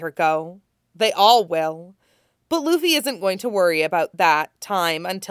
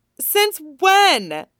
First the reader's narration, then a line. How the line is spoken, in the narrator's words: Nami blurts, her exclamation